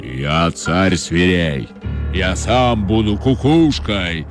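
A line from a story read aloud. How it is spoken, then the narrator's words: Menacing lion's roar. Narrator (Russian): грозно зарычал лев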